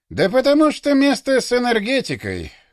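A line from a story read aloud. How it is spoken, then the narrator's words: Sigh. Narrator (Russian): вздохнул Карасюк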